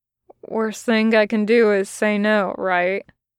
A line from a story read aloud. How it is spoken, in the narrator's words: Aziraphale laughed then, a soft and strangely hurt chuckle